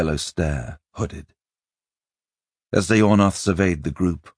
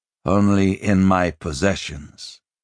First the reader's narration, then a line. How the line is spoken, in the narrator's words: Joshua said calmly